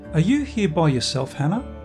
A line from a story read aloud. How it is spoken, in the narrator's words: I asked